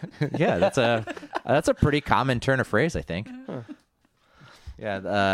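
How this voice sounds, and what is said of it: Usual voice. Nothing is said of it.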